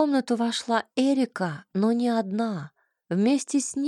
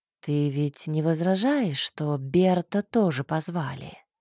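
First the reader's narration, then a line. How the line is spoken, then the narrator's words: Quiet question. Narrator (Russian): Негромко поинтересовалась чернокнижница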